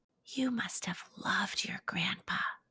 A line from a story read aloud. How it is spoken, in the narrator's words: whispered Jake